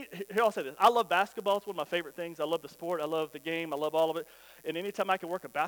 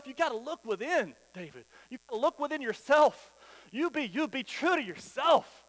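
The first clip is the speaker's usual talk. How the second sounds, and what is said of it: Emotional, passionate preaching. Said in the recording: “I'm getting a little emotional up here, a little passionate, right?”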